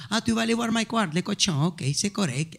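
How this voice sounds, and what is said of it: Imitated strong Latino accent. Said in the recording (French): “un accent super, super latino ... Elle parle vraiment comme ça.”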